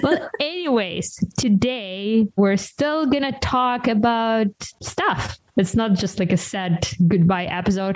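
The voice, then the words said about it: Ukrainian accent. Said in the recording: “you might be able to pick up Ukrainian accent.”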